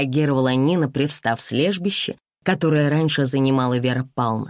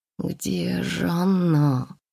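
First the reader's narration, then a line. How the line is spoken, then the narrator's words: Muttering to herself. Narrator (Russian): Бормотала я про себя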